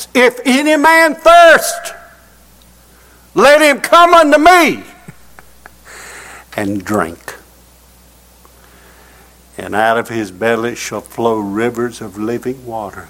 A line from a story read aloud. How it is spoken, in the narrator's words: He cried with a loud voice